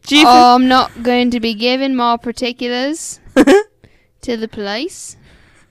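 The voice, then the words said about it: Put-on Australian accent. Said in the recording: “Is that a good Australian accent? ... Yes. ... Yeah, it was great.”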